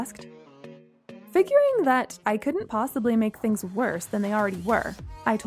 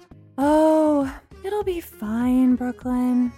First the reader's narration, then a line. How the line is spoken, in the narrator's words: Bree said dreamily